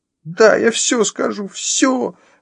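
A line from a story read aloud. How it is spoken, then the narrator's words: Shrill squeal. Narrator (Russian): взвизгнула она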